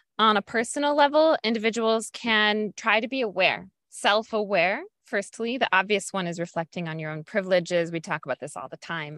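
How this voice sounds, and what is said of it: American accent. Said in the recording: “As an American, I have a certain accent when I speak English.”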